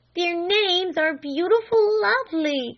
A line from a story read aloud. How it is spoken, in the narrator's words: cried Flame